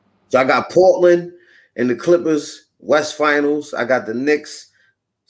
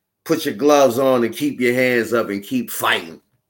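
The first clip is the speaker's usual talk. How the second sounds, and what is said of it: Imitates another person's voice. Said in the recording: “in my Dusty Rhodes voice”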